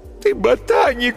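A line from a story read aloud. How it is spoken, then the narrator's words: Sobbing. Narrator (Russian): всхлипывала Алиса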